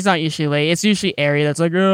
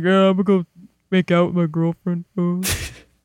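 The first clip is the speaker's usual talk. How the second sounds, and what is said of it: Imitates another person's voice. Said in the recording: “That's my very accurate Ari impression.”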